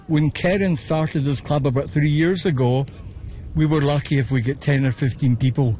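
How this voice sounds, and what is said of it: Scottish Glasgow accent. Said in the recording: “your accent ... Originally from Glasgow.”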